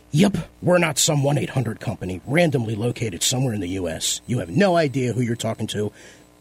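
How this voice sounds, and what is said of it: Imitates another person's voice. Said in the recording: “my best Gary impression ... not in Gary's voice”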